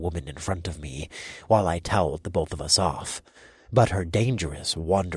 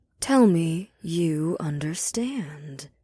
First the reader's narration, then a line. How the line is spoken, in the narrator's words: she replied in a smoky tone